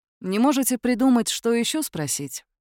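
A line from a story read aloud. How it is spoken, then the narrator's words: Weary question. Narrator (Russian): устало поинтересовался Атикус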